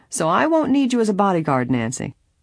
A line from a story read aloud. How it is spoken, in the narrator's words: Laughingly, the lawyer added